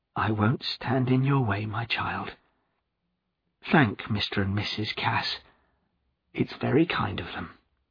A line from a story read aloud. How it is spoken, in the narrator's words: His whole body trembled as he said quietly